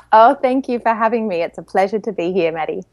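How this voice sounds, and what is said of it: Australian accent. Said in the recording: “I love your accent. I just love your voice. It's so beautiful. ... you're from Australia ... this really delicious, awesome accent”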